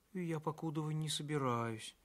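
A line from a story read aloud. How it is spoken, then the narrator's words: Quiet reply. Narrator (Russian): тихо ответила Соня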